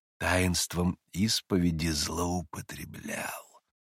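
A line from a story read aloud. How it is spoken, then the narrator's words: Spiteful whisper. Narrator (Russian): злобным шепотом прибавляли самые ярые противники старчества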